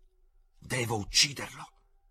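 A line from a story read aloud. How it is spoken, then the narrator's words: Hissing. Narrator (Italian): sibilò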